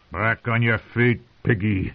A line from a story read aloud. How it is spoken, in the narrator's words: someone growled